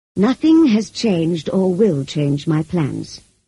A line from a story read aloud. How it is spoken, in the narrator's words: he answered